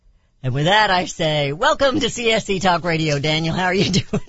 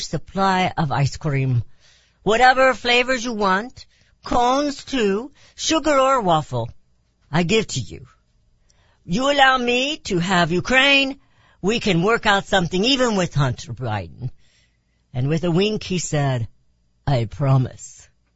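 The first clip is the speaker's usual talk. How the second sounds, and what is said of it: Bad Russian accent imitating Putin. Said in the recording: “That was a pretty bad Russian accent ... It sounded just like Putin.”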